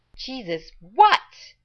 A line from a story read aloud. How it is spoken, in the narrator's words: Rodney yelled from inside